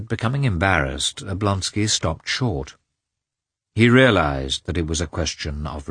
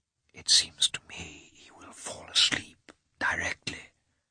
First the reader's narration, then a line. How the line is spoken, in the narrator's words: said Karenin in a significant whisper